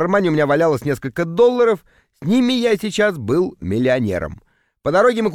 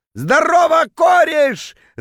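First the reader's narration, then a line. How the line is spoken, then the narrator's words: Drunken bellow. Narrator (Russian): заорал он дурным пьяным голосом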